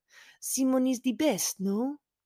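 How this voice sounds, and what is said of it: Bella Hadid's fake French accent. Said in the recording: “Bella Hadid's fake French accent”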